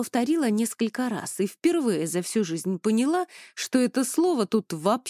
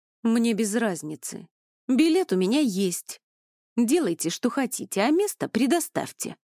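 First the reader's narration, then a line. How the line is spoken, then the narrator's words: Clipped, emphatic. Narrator (Russian): отчеканила Эльвира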